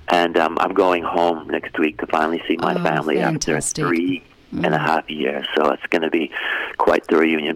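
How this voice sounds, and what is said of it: Canadian English accent. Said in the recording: “you've still got the accent... It's not American, it's Canadian.”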